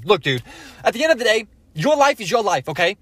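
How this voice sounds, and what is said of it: Fast, energetic Gary Vee impression. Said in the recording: “Gary V also sounds like he's in fast forward motion. I don't know if that's just my impression of him, but he has the energy and the confidence”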